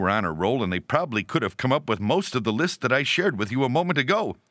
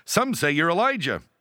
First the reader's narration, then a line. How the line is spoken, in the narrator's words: the disciples, who like school children that for once are sure they know the right answer, eagerly reply